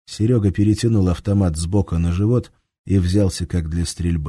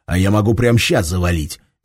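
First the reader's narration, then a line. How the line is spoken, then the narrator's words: Furious hiss. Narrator (Russian): бешено прошипел он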